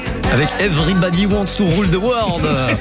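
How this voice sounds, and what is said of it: Put-on English accent. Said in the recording (French): “Vous aimez mon accent anglais ou pas?”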